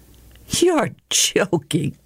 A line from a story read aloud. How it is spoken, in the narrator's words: she giggled